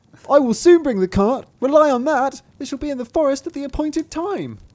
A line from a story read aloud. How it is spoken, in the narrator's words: cried Thumbling